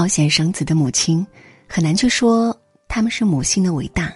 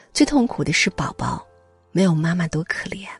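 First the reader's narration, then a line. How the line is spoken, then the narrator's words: Sighing. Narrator (Chinese): 医护人员叹息道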